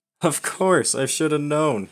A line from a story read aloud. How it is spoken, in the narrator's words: Matt laughed